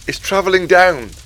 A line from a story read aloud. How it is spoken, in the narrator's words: I shouted back to Cleopas